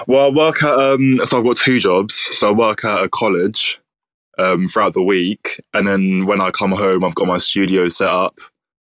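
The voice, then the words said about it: Southeast London accent. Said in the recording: “I love your accent ... I'm actually from Southeast London.”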